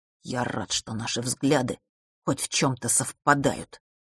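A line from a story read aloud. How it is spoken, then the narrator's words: Quiet contempt, brother. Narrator (Russian): презрительно, но тихо сказал брат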